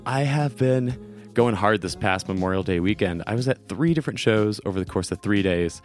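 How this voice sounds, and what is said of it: Rough, worn-out voice. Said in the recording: “as you can hear in my voice, ... Between all the talking and singing and yelling, I'm going to be a little rough in this episode. ... taking breaks to do coughs”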